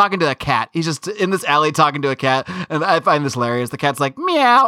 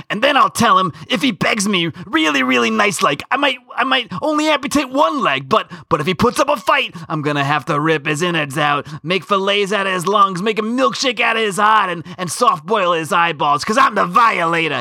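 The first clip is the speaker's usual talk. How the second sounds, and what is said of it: Danny DeVito-style Violator clown voice. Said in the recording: “What do you think of my DeVito Violator impression? ... It's actually pretty good. ... that's how I hear the voice”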